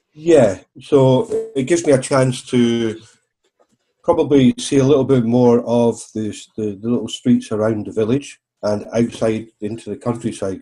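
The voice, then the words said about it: Devon English accent. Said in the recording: “you can tell from my accent I'm a local ... born and bred in Devon”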